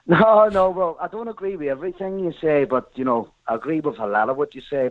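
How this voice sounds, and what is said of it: Northern Irish accent. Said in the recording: “I want to talk about this DUP thing. You probably guessed from the accent.”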